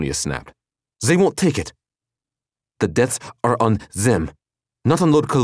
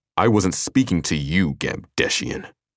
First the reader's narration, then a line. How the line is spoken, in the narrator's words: Dwyer sneered